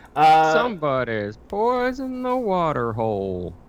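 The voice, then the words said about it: Exaggerated twangy cowboy accent. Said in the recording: “cowboy accent ... this really weird twangy redneck. Like, less like badass cowboy, more just like the fat guy, like, on his porch”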